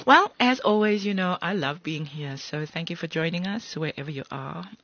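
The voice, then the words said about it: Sultry, sexy speaking voice. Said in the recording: “I'm doing my sexy voice today.”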